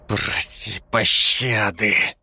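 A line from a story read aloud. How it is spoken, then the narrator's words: Hiss, close-up. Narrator (Russian): прошипел мне в лицо Георг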